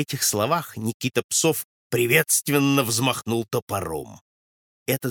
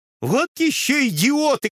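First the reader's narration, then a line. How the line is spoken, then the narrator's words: Shouted from above. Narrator (Russian): кричали сверху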